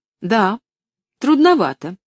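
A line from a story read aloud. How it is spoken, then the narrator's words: Girl exclaiming. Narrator (Russian): воскликнула девочка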